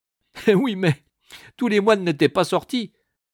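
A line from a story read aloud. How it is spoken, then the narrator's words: Loud laughing interruption. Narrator (French): interrompit le cornette en riant à gorge déployée de sa plaisanterie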